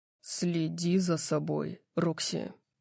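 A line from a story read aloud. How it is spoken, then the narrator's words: Growled. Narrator (Russian): прорычал он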